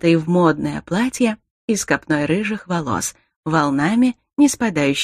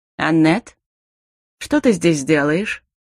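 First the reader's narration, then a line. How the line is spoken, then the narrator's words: Calm, composed question. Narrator (Russian): Совершенно спокойно спросил Дарил, едва окончательно совладал с изумлением и растерянностью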